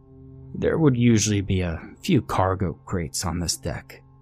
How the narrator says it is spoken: he muttered

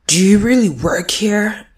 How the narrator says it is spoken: he grunted

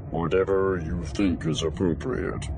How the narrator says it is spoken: he said, his voice stiff, both in reality and through the translator

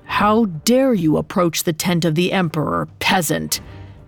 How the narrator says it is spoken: One of them growled

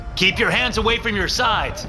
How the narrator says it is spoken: I shout

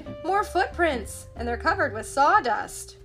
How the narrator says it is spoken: Velma cried

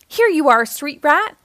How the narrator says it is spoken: shouted a guard

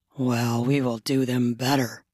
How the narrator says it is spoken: Logan said in a husky voice

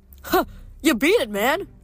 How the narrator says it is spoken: Percy laughed

